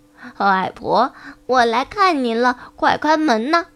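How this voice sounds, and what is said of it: Imitating Little Red Riding Hood's voice. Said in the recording (Chinese): “学着小红帽的声音说”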